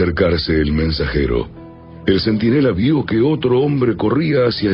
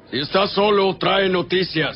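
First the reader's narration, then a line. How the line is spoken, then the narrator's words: King's reply. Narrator (Spanish): el rey respondió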